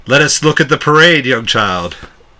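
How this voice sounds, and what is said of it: Put-on accent. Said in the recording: “The accent.”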